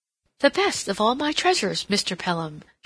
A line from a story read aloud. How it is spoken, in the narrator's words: exclaimed